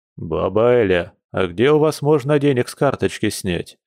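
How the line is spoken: Deep bass voice. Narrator (Russian): пробасил он

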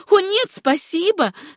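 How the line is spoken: Laughing exclamation. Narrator (Russian): смеясь воскликнула Сюзанна

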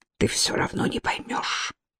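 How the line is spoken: Whisper. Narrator (Russian): прошептал

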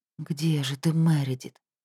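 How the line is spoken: Whispered question. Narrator (Russian): шепотом спросила Оливия

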